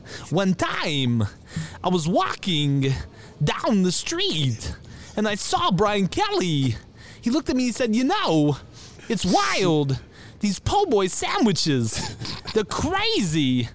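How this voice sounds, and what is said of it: Spot-on Christopher Walken impression. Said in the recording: “That's a spot on Christopher Walken impression.”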